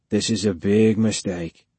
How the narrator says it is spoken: he said quietly

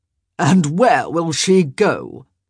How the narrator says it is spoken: Cavender sneered

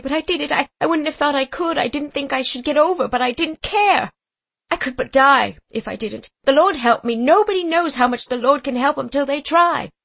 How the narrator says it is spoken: said she wildly

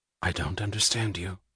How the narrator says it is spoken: she said very quietly

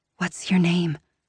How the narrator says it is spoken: I ask breathlessly

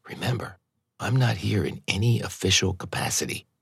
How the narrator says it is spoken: Kate whispered

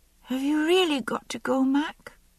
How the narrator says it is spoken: he asked in a very small voice

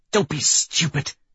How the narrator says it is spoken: she snarls, with the last of her strength

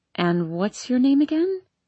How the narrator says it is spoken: she asks gently

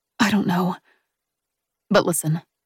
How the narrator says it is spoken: Bea says, her tone softening so that she's hard to hear over the pelting rain

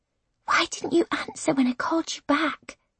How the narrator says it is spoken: I whisper

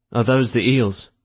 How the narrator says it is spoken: someone asked nervously

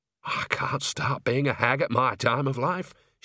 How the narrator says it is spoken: muttered

